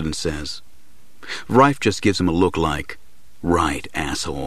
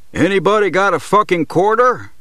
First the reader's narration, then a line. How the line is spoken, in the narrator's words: Rife hollers